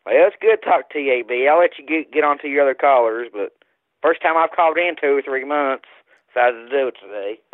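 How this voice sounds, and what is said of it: West Virginia accent. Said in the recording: “that accent is real. That's a West Virginia accent.”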